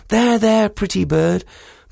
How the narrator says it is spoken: she clucked and she cooed, and she said

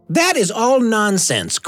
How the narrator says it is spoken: cried Washington Otis

